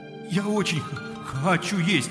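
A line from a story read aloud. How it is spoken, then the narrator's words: Pleading. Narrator (Russian): взмолился Ганс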